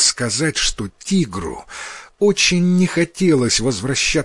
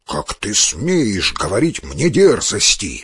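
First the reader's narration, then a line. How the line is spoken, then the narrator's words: Tiger growling. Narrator (Russian): зарычал тигр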